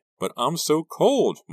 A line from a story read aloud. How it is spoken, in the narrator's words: Maya whined